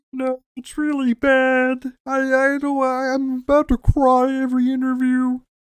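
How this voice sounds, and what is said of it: Jordan Peterson impression, Kermit-like voice. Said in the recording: “Jordan Peterson ... He talks like Kermit the Frog ... pretty good Jordan Peterson impression”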